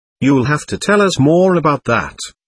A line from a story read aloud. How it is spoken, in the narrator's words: I said cheerfully